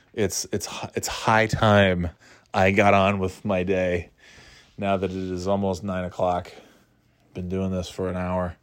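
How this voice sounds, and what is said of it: Strained, fading voice. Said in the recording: “I can't keep this up any longer. My voice is going.”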